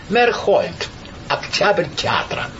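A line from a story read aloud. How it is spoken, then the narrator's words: Raging, laughing young man. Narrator (Russian): Молодой бушевал и хохотал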